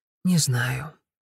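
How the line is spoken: Quiet. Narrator (Russian): тихо сказала она

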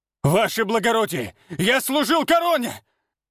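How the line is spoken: Desperate shout. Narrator (Russian): Отчаянно кричал Тобальд, когда его волокли к выходу

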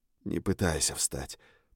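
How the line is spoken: Whisper. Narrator (Russian): прошептал я

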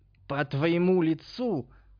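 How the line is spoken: Hoarse rasp. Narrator (Russian): захрипел Альбинос

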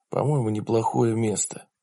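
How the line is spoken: Whispered. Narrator (Russian): прошептал он

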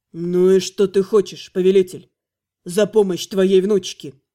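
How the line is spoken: Dull, hollow question. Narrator (Russian): Морковный глухо спросил

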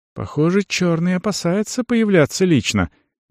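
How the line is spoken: Quiet. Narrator (Russian): негромко сказала Арону Эрига

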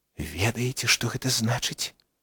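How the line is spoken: Nearly silent whisper. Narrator (Belarusian): Практычна бязгучна прашаптаў ён напрыканцы

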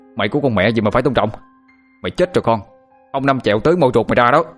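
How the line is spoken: Angry shout. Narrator (Vietnamese): Anh Thông quát lên

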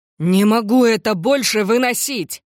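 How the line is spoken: Sudden shout from another room. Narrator (Russian): внезапно закричал Бен из гостиной

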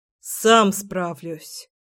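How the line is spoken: Grumbling. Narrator (Russian): проворчал Сёма

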